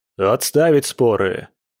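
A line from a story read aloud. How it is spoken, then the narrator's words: Grim barked order. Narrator (Russian): мрачно рявкнул будущий дед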